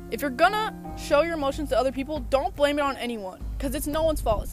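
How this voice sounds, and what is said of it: Yelling, loud passionate speech. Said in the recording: “I'm sorry if I'm yelling, but I am passionate right now.”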